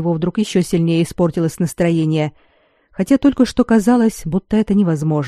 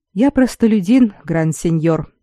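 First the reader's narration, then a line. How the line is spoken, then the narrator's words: Calm reply. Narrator (Russian): спокойно отозвался Форелли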